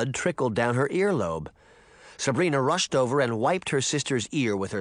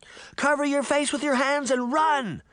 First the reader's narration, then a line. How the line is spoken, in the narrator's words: Sabrina shouted